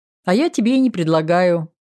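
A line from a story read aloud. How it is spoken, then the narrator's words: Laughing. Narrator (Russian): засмеялась я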